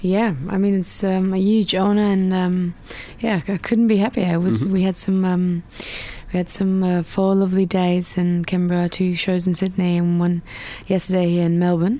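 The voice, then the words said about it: Slightly cracky voice. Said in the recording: “my voice is a little bit cracky”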